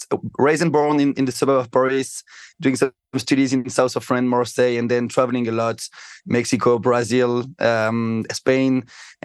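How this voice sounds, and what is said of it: Strong French accent. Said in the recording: “I'm from France. Of course, you can hear with my bad French accent.”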